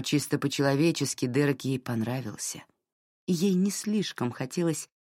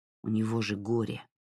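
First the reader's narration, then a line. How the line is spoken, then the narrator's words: Grumbling. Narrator (Russian): проворчал Джей Ар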